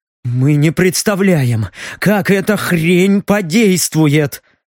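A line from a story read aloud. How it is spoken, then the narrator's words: Suppressed growl. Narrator (Russian): Стараясь не орать, прорычал Леха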